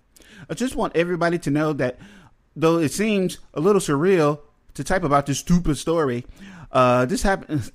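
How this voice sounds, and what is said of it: Attempted Canadian accent sounding British. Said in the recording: “let me try a British Columbian accent ... They're kind of like Wisconsin ... that sounded British ... I went into some Scottish shit, too”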